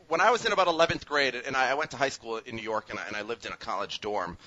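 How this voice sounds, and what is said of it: New York-leaning accent. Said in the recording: “I hear your accent on these, and honestly, your accent is skewing New York at this point.”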